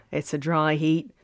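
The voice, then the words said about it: Poor put-on Australian accent. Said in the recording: “Why am I talking like that? That wasn't even a very good Australian accent.”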